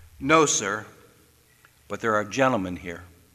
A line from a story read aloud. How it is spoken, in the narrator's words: General Grant said quietly